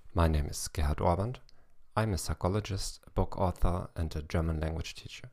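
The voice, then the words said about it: English with a German accent. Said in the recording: “the only podcast in the world in 21 languages with a German accent.”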